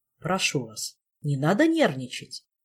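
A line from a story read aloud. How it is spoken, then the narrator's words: Gentle soothing tone. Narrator (Russian): ласковым тоном образцового психиатра утешил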